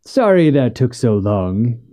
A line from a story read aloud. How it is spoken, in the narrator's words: said with a forced chuckle